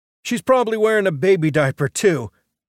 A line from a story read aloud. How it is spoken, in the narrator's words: Mitch cried in delight